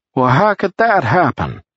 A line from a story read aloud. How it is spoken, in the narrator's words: Luckman said loudly